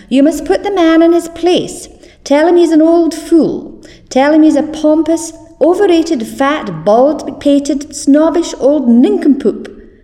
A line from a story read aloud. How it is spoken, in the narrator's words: cried Elspeth to her son